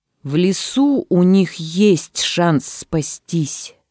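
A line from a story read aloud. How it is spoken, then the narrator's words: Plain. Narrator (Russian): сказал дровосек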